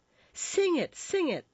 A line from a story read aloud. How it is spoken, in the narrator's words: the whole company cried